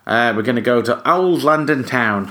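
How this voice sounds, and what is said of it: Bad put-on Cockney accent. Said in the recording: “terrible Cockney impression”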